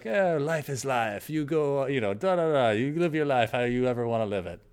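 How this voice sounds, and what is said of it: Put-on French accent, sounds Spanish. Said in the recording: “That's my French accent. ... It's kind of bordering on Spanish.”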